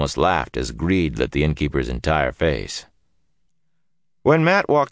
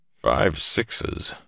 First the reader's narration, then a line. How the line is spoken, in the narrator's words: Tom muttered behind him